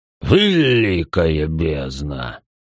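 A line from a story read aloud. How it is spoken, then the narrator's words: Pleased drawl. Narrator (Russian): довольно протянул отшельник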